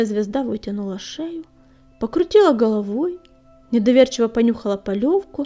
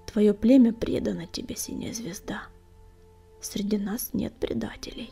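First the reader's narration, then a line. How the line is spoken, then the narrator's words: Quiet, restrained. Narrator (Russian): Огнегрив проглотил оскорбление и тихо проговорил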